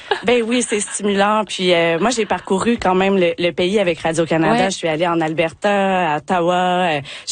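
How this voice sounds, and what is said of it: Québécois French accent. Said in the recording (French): “vous pouvez l'entendre par mon accent, je suis québécoise”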